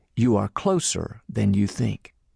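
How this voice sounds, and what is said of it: Calm, kind voice. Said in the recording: “He smiled and kindly said in a calm voice”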